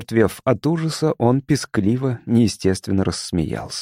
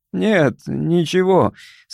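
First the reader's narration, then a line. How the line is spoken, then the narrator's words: Desperate, forced out. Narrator (Russian): с отчаянием выдавил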